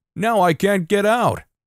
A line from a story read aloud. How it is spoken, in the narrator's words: the guy has the gall to roll down his window and yell